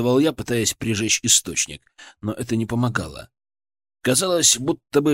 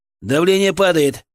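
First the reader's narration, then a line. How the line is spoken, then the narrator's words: Shout from behind screen. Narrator (Russian): крикнул из-за ширмы Артем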